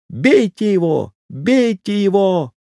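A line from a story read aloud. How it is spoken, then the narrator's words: Shrill hysterical scream. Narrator (Russian): вдруг затрясся всем телом, затопал ногами и закричал пронзительно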